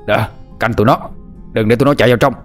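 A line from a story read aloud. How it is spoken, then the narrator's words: Shouted orders. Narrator (Vietnamese): Tiếng của tên Lê Cao Hưng la hét với đám lâu la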